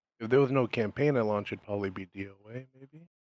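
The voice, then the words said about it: Whispering. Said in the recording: “why are you in here whispering, bro?”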